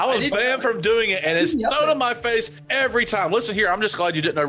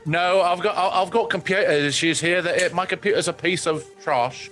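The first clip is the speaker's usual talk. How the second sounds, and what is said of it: Bad put-on New Zealand accent, sounds British. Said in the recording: “Why the bad British accent? ... That was my New Zealand accent. ... That was very British sounding.”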